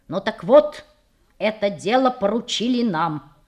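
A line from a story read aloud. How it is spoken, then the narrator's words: Solemn. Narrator (Russian): торжественно сказал шерлокомец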